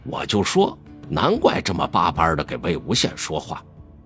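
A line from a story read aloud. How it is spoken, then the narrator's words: Muttering. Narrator (Chinese): 立即有人嘀咕道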